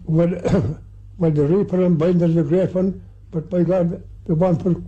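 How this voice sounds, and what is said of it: Old rural Irish accent. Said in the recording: “what Irish accent sounded like back in the day? I wouldn't have been able to understand anybody”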